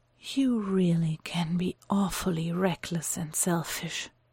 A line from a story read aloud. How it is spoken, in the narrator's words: Mycroft says quietly, breathless, but still more than willing to try and provoke his brother